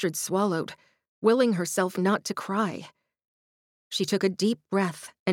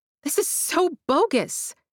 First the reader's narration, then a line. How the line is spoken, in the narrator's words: she spluttered